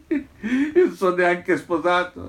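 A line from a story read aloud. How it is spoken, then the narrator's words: Bear laughing heartily. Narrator (Italian): rispose l'orso ridendo a crepapelle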